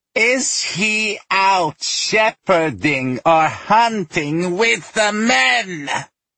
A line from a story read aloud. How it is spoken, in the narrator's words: Aijana asked again, the screech of her voice rising